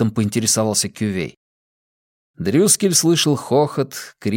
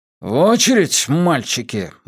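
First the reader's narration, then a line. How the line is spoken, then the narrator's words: Gloomy gunman. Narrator (Russian): мрачно произнес стрелок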